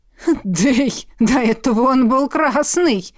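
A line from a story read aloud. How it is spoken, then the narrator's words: Suppressing laughter. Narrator (Russian): Едва удерживаясь от хохота, произнес Синекрылый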